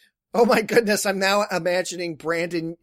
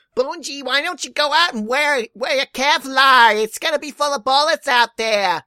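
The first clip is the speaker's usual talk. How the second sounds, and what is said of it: Bad put-on old Jewish mother accent. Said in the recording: “talking as an old Jewish mother ... That's a bad accent. ... That's terrible.”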